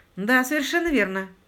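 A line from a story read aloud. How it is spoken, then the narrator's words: Gloomy confirmation. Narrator (Russian): мрачно подтвердил Паркер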